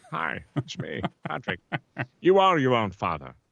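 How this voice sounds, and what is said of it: Patrick Stewart impression, no accent. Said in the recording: “it could be Patrick Stewart without the accent.”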